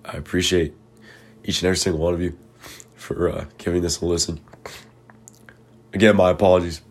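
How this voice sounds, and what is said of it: Congested, hoarse voice. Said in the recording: “My voice isn't the greatest right now, obviously, as you can tell... I've been congested lately... I've had a sore throat.”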